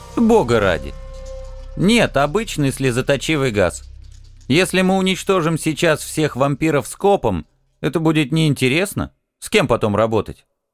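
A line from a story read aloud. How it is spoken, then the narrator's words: Muffled smirking snort. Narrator (Russian): Хмыкнул Алекс, через противогаз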